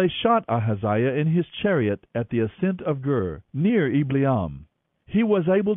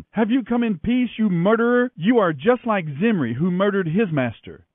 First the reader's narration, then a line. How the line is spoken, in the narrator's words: she shouted at him